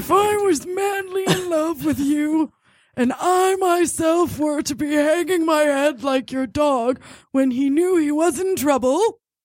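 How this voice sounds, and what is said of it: Old man voice. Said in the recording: “You have to read it in an old man voice.”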